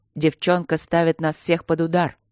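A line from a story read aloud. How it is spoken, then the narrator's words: Wounded man's growl. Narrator (Russian): рычал перевязанный Ольрин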